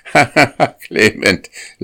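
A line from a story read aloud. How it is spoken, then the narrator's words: Laughing dairymaid. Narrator (German): lachte die Sennerin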